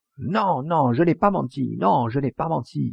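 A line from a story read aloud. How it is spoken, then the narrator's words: Screamed. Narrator (French): hurla la sœur de Grondard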